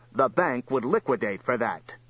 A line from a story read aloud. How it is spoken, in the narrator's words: snapped Voraz